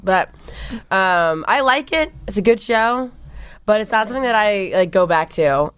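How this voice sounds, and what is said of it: Hoarse, fading voice. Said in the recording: “my voice is kind of going out, so if I sound crazy today”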